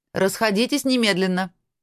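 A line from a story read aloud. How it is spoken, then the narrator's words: Stern shout, old woman. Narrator (Russian): строго крикнула на учеников старая ведьма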